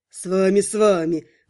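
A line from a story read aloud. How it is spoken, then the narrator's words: Chuckling reply. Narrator (Russian): хохотнул в ответ, видимо, тот самый Гар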